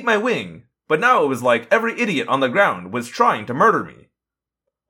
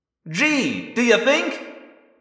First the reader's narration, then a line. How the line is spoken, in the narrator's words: I said frantically